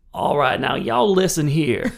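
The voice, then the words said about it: Thick molasses Southern drawl, McConaughey-like. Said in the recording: “such a like molasses thick, mm-hmm. like McConaughey on heroin accent”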